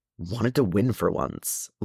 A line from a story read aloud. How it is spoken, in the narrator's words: Lonnie grumbled